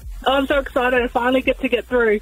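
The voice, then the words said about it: Excited, eager voice. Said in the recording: “You sound very excited.”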